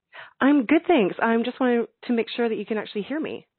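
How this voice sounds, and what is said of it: Slightly shaky, nervous voice. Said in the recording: “my voice is a little shaky because I didn't know I was actually going to volunteer myself today ... The shaky voice”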